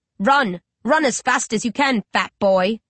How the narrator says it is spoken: I snarl

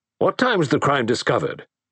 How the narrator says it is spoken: demanded Melrose sharply

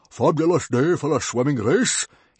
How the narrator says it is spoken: he roared happily

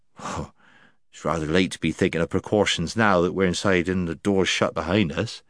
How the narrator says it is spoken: he muttered

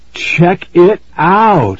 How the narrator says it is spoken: Aaron exclaimed

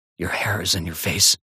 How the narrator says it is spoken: He whispers

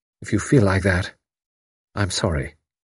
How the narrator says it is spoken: He said gently

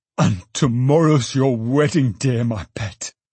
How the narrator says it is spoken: cried Trotty

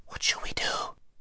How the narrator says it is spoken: said Shasta in a lower whisper than before

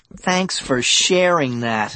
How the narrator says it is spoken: I groaned

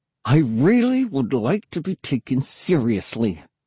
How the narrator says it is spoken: I said through clenched teeth

